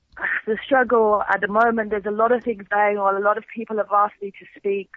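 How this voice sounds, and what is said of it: Unclear, congested voice. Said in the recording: “I'm not very clear, as you can hear, ... I have got a cold. You'll have to forgive me that my voice is a bit not myself”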